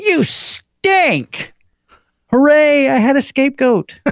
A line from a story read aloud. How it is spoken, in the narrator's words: my mom yelled at my dad